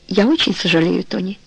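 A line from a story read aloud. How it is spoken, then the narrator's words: Soft. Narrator (Russian): мягко сказал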